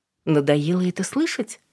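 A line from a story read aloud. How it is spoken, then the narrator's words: Calm question. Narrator (Russian): спокойно спросила Алина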